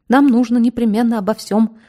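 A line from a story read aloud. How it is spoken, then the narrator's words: Rapid garbled chatter. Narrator (Russian): затараторил коротышка, глотая слова и целые куски предложений, так что общего смысла в трескотне не просматривалось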